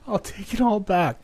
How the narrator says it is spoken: I yelled and repeated as loud as I could, but my words never translated into any audible noise that they could hear

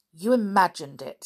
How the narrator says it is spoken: said crossly, still rubbing her ankle

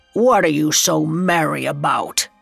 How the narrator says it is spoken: he growled

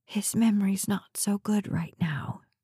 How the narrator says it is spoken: whispered

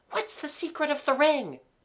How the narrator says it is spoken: gasped

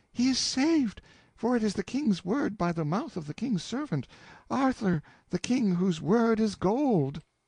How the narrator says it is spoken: cried out

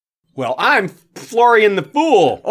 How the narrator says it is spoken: would call out

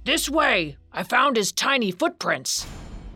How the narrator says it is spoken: he heard a man's voice shouting

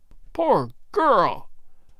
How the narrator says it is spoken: Good cried

